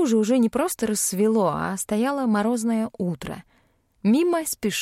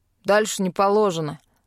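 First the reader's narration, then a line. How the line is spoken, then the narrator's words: Barked. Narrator (Russian): рявкнул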